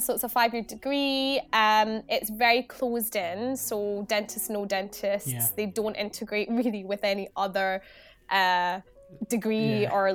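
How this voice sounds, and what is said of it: Glaswegian Scottish accent. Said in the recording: “I studied where my accent comes from. So I studied from Glasgow.”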